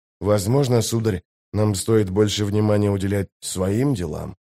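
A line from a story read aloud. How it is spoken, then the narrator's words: Whispered. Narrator (Russian): прошептал Дестриан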